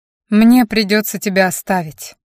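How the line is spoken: Sudden. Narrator (Russian): неожиданно произнес Рэндалл

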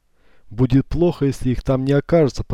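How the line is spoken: Grumbling. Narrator (Russian): проворчал Маркиз

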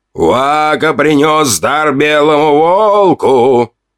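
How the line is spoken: Loud shout across camp. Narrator (Russian): прокричал Сови на всю стоянку

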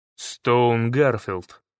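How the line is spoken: Calm. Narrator (Russian): спокойно произнес я

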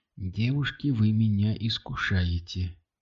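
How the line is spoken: Whispered. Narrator (Russian): прошептал Кирилл

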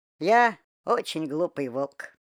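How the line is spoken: Sighing. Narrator (Russian): вздохнул Вова

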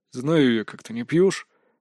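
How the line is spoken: Displeased grumble. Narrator (Russian): недовольно пробурчал Чо Сын-Джун

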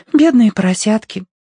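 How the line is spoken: Sighing. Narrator (Russian): вздохнула Агнес

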